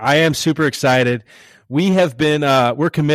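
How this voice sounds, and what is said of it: Usual voice. Nothing is said of it.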